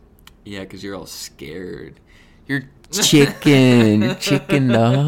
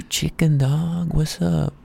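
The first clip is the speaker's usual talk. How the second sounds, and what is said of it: Whispering into the mic. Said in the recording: “What if I whispered in the mic like this?”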